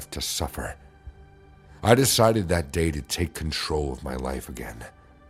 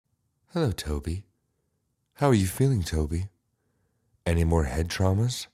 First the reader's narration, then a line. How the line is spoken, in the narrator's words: my mother asked sweetly